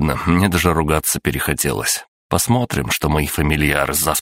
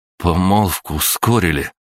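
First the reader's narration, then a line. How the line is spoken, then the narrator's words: Forced out with difficulty. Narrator (Russian): с трудом выдавил Саша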